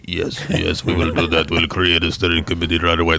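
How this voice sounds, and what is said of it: Imitated voice, good impression. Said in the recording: “That was a good impression.”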